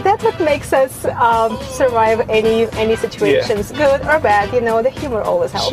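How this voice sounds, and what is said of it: Ukrainian accent. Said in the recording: “I just love your accent. ... a Ukrainian woman”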